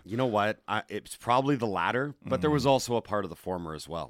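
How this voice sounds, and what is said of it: Scratchy, slightly hoarse voice. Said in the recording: “I might be a little under the weather today. My voice is a little scratchy this morning.”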